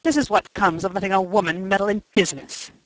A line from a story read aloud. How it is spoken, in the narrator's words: he said bitterly